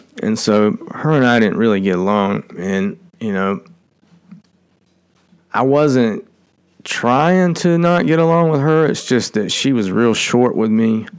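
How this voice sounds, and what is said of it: Twangy American accent. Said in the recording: “my twangy accent”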